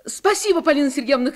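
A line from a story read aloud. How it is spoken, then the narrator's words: Shouting. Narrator (Russian): крикнула Таня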